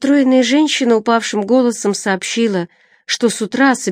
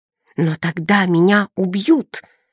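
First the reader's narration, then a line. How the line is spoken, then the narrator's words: Breathless, through gritted teeth. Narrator (Russian): отдышавшись, процедила сумасшедшая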